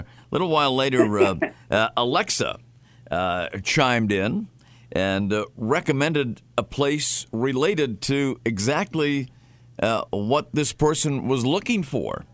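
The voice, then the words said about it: Boston accent. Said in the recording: “there's my Boston accent chiming in there”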